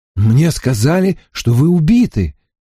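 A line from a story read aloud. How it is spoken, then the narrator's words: Exclaimed. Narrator (Russian): воскликнул он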